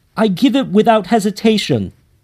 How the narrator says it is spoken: I blurted

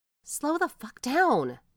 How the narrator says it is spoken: she exclaims

